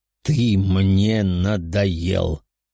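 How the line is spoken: Menacing voice, weakening. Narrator (Russian): грозным голосом заговорил аватар бога, чувствуя, как его точка привязки ослабевает

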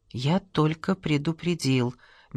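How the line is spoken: Soft. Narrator (Russian): мягко сказал Гиндин

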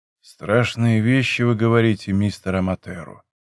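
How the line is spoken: Quiet. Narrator (Russian): произнес он тихо

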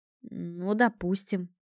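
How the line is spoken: Muttered. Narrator (Russian): пробормотал Эрлайт

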